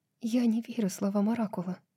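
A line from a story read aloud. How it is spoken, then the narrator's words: Whisper. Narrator (Russian): прошептала Брайс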